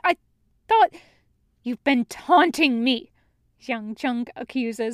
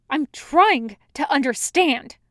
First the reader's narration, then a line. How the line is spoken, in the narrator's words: Wei Wuxian snaps